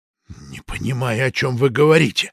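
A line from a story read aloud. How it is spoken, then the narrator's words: Hissed. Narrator (Russian): не сказал, прошипел агент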